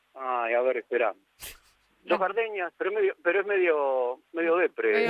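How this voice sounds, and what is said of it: Usual voice. Nothing is said of it.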